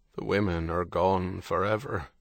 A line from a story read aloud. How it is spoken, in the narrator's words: Gannon said, his voice heavy